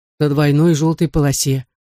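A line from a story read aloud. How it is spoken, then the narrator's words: Gloomy. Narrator (Russian): мрачно ответил Алан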